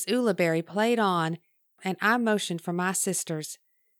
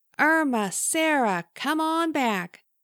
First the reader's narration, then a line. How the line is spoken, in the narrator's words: I yelled in a singing voice